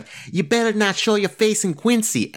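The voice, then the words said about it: Exaggerated thick Boston accent. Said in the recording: “she in the Boston, the most Boston accent possible”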